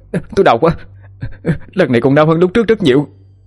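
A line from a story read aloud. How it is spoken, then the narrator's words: Screaming. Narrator (Vietnamese): Khải hét lên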